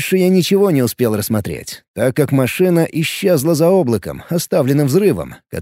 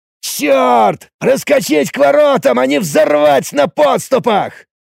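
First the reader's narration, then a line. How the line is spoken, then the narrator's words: Angry shout. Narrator (Russian): закричал все тот же Оридж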